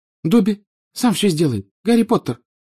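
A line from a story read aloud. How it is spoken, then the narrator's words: Tearful squeak. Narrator (Russian): пропищал Добби, и его большие, как теннисные мячики, глаза наполнились слезами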